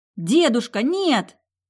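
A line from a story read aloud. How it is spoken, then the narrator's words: Shout. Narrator (Russian): крикнула я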